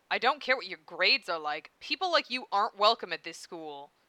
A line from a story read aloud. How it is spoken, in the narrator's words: Tomizawa snapped